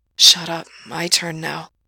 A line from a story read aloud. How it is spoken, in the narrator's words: Gerard whispers, his voice so fucking shot it sounds like porn